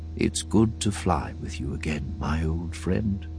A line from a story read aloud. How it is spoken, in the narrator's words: the old man said so softly, wasn't sure he had heard him right